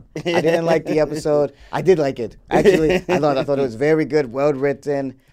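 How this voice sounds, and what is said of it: Politician impression with Russian-sounding accent. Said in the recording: “We're going to do the whole review as Trump ... Why is your Trump from Russia?”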